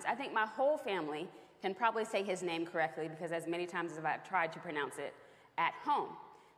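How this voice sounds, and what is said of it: Delaware and Tennessee accent. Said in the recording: “my Delaware/Tennessee accent”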